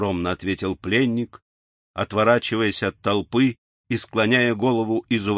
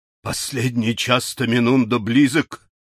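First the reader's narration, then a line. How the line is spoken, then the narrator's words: Old man's exclamation. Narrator (Russian): воскликнул мудрец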